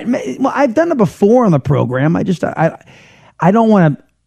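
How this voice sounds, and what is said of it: Raspy, strained voice. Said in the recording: “Texas in which I'm broadcasting, folks, it does something weird to my voice ... doing three shows a day, it's a bit of a strain. So I've got a raspiness to the voice as it is ... see, now my voice is really raspy right now”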